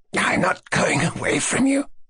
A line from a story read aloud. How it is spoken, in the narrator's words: went on, continually gasping and coughing